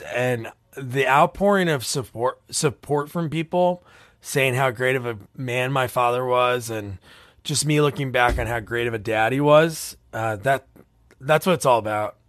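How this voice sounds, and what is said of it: Teary, emotional voice. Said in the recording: “I'm getting a little teary right now”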